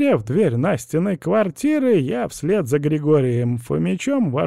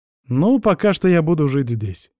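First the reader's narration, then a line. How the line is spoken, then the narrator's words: Calm explanation. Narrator (Russian): совершенно спокойно пояснил я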